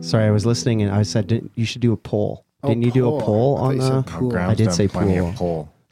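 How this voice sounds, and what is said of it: Canadian accent. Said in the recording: “It's my Canadian accent.”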